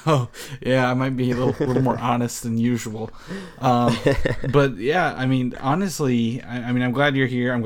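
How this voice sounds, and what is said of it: Tired, low-energy voice. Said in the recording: “this is probably like the least energetic I've ever been for this show ... hear that in my voice”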